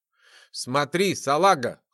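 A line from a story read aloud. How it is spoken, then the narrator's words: Smirking snort. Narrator (Russian): хмыкнул он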